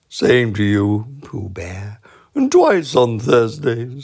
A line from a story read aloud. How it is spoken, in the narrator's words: said Eeyore gloomily